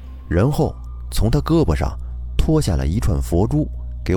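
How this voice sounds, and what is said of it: Usual voice. Nothing is said of it.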